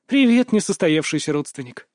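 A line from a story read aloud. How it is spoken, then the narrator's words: Surprisingly cheerful greeting. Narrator (Russian): Неожиданно довольно бодро поздоровалась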